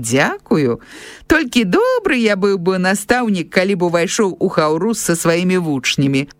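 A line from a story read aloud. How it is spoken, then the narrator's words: Laughing, breaking character. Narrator (Belarusian): засмяяўся ён, не вытрымаўшы да канца гэтай ролі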